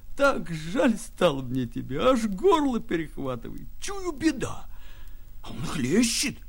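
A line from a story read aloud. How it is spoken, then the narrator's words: Silky tender laughing speech. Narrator (Russian): Он засмеялся шелковым ласковым смехом, и, смеясь, говорил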